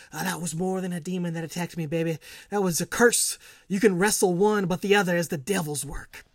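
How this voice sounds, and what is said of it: Dusty Rhodes impression. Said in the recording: “terrible Dusty Rhodes impression ... Thought it was Dusty.”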